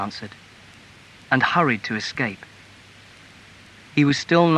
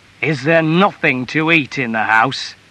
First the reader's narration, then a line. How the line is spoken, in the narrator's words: asked roughly